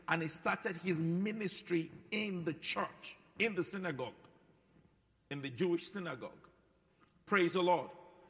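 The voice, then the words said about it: Thick African accent. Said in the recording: “this thick accent ... My own won't change. ... African”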